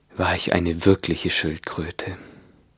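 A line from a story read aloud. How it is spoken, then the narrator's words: Mock turtle's deep sigh. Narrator (German): sagte die falsche Schildkröte endlich mit einem tiefen Seufzen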